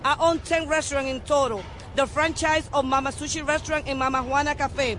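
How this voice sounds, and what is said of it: Very strong foreign accent. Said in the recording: “I have a very strong accent.”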